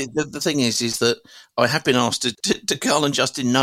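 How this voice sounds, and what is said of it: Usual voice. Nothing is said of it.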